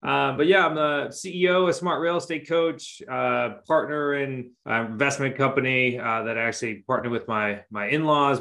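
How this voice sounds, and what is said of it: Massachusetts accent. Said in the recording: “up here in Massachusetts ... There's that accent.”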